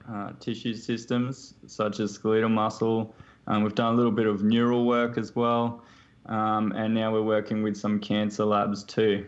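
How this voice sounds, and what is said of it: Australian accent. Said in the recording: “I can tell from the accent also that you're, you know, you have Australian origins.”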